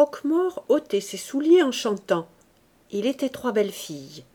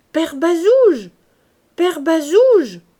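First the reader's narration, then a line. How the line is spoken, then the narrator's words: Raised voice, calling. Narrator (French): cria Gervaise en haussant la voix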